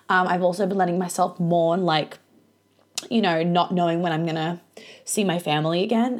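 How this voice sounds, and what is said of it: Teary, emotional voice. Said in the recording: “as you can tell, I'm a little bit teary now.”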